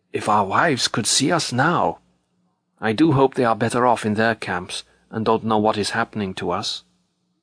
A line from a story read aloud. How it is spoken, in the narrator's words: Hiding his mouth behind his upturned collar, the man marching next to me whispered suddenly